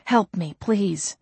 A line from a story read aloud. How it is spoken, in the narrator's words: She had just enough breath to whisper